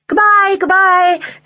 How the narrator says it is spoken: everyone called

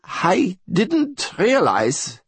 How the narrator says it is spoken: von Igelfeld began, his voice thin and reedy

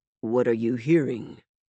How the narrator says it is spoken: He asked Hero quietly

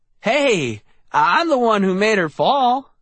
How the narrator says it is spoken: I exclaimed

